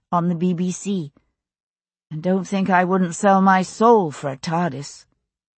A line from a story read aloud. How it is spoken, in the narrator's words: she said dryly